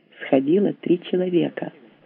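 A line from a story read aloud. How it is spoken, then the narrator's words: Whispered while walking. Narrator (Russian): на ходу шепнул Стас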